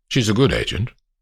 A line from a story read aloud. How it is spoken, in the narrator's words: says Sir Bernard